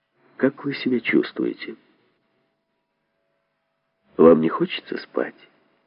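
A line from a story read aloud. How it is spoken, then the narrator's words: Quiet question. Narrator (Russian): тихо спросил Гаврилова хлороформатор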